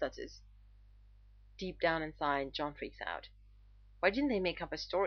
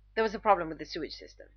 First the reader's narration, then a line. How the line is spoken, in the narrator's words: John covers quickly